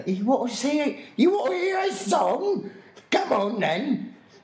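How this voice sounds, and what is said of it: Bad put-on Cockney accent, shouting. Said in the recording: “I would speak in this like really bad Cockney accent, screaming at people”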